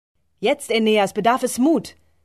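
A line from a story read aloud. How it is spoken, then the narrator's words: Goddess calling out. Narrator (German): ruft die Göttin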